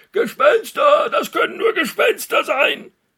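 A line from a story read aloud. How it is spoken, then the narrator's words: Drunken roaring. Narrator (German): Die Räuber brüllten, trunken von dem Wein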